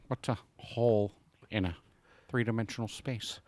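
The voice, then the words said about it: Weird Matthew McConaughey impression. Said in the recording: “doing a weird Matthew McConaughey impression”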